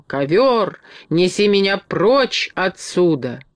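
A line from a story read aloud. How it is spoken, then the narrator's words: Wild scream. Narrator (Russian): она завопила диким голосом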